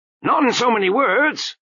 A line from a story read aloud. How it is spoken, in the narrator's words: shouted Lutzer